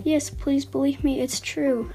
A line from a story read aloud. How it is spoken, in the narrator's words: pleaded